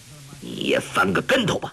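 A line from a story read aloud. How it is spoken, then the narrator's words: Stern, harsh voice. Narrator (Chinese): 柯镇恶厉声说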